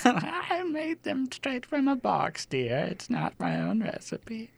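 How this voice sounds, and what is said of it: Old woman character voice. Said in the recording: “my old woman impression”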